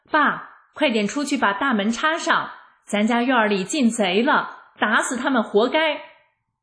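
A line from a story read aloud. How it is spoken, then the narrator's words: Loud shout. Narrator (Chinese): 小姑子大声喊我公公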